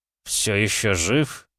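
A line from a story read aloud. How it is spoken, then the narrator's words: Hissed through teeth. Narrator (Russian): процедил я сквозь зубы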